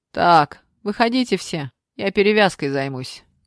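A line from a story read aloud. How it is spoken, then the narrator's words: Loud. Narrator (Russian): громко сказал Дима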